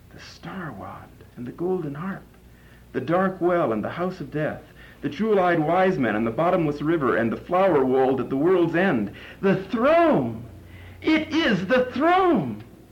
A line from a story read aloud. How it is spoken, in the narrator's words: His voice suddenly shouted like a trumpet